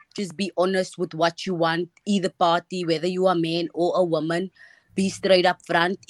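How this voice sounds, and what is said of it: Speaks with a noticeable accent. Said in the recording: “We love your accent. It's so cute.”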